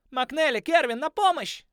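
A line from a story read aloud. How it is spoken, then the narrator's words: Yelling lynx. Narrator (Russian): завопил рысь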